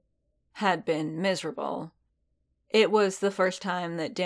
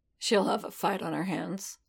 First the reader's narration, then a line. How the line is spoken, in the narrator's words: he muttered